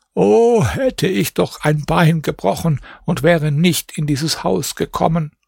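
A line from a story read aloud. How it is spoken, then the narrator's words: Old woman sighing. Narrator (German): Die Alte aber seufzte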